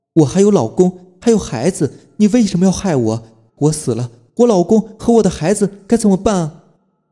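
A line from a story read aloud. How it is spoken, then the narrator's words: Ghostly woman wailing. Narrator (Chinese): 正是那个站街女，她披头散发，浑身鲜血淋漓，一把揪住了洋洋的衣服，哭喊道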